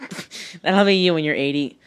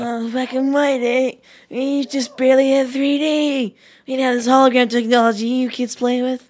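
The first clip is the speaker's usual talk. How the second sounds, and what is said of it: Old man character voice. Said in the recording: “so good at doing old man voice?”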